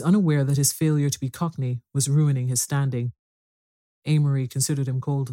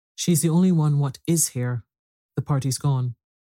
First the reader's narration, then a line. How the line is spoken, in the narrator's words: continued the butler, his voice rising unnecessarily